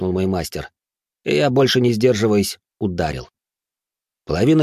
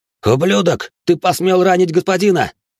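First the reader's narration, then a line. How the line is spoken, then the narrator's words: Shouted. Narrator (Russian): крикнул его напарник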